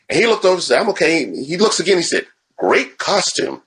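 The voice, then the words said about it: Stan Lee impression. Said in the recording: “That was a great Stan Lee impersonation.”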